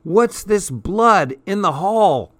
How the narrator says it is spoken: Suddenly, I heard Betsy shout

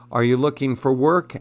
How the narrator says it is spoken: asked the man

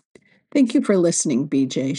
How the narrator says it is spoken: she said

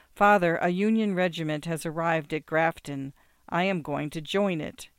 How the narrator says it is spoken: said quietly and gravely

